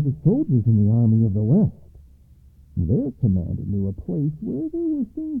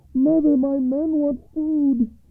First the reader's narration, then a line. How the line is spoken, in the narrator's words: cried the youngest son over the west wall